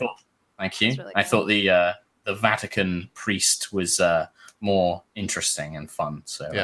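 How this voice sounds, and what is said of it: Usual voice. Nothing is said of it.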